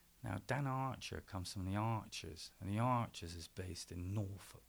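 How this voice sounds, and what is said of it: Strong Gloucester English accent. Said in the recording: “I have a very good, very strong Gloucester accent”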